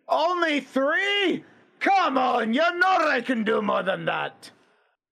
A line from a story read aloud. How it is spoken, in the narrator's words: About 3 decks down, you can hear Grimnir screaming